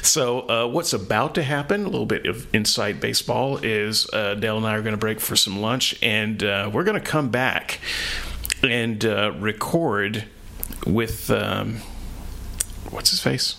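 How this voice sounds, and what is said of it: Voice a bit off, weak. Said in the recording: “my voice is a little bit off ... I just can't seem to talk very much right now”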